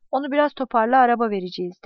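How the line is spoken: Plain. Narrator (Turkish): dedi

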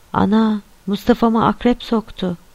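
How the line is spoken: Crying out. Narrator (Turkish): diye haykırdı

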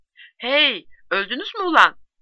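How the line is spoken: Shouted. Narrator (Turkish): diye bağırdı

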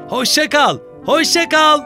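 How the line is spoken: Shouting after someone. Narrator (Turkish): diye bağırıyordu Basko rüzgarın arkasından

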